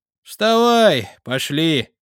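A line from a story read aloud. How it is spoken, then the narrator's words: Sighed. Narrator (Russian): вздохнул я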